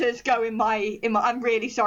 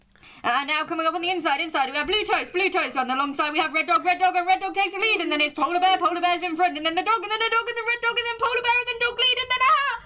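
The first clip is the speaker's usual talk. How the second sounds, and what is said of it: Fast, shouted horse-race commentator voice. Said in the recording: “I really want to do it fast, like a horse race presenter ... sorry for screaming in anyone's ear, but that's how horse presenters sound to me”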